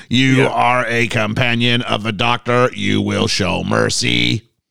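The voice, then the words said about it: Dalek robotic voice impression. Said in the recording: “this is my great Dalek impression.”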